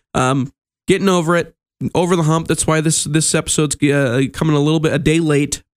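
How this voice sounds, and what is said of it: Sick-sounding, under-the-weather voice. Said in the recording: “Excuse my voice. I'm a little under the weather, still recovering from a little bit of a cold”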